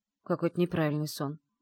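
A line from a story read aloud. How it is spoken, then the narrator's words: Grumbling. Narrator (Russian): пробурчала я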